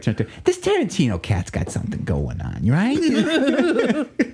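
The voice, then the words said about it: Imitates another person's voice. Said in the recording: “That's a good impression. ... Well, he'd actually be doing it a lot louder though”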